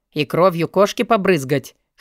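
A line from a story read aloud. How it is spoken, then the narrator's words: Snorting chuckle. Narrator (Russian): хмыкнул Алви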